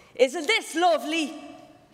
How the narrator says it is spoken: shouted in my ear

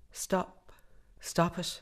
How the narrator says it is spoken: cried

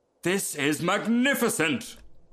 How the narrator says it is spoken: cried the rocket

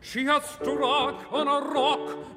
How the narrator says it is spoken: the seamen cried in the breath of their wild dismay

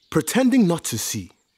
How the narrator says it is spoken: he grumbled aloud

